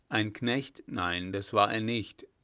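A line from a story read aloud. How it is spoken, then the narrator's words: Plain. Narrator (German): sagte einer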